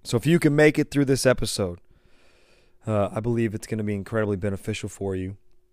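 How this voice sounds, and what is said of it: Losing voice, strained hoarse speech. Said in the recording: “if you can tell a little bit from the intro and then even from me reading that previous quote, I started losing my voice a couple days ago”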